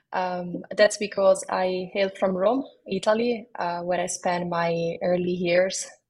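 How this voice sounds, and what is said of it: Slight Italian accent. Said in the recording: “a hint of an Italian accent in my voice”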